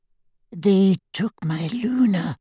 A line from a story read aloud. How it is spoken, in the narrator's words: he whispered